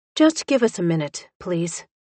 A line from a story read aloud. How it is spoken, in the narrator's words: she said